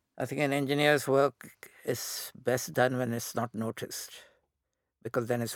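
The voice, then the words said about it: Indian English accent. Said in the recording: “my accent had become very British ... So I deliberately to Indianize my accent, which stuck.”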